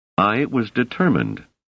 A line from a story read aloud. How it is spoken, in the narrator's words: said Selden warmly